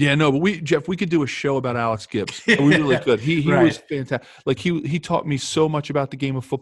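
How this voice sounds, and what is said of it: Usual voice. Nothing is said of it.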